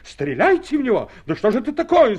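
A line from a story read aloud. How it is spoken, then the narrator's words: Officer shouting. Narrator (Russian): закричал красивый офицер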